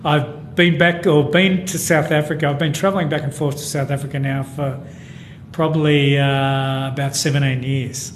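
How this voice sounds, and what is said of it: Broad Australian accent. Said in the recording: “You've got a broad Aussie accent.”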